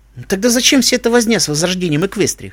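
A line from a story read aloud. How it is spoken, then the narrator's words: Skeptical snort. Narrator (Russian): хмыкнул я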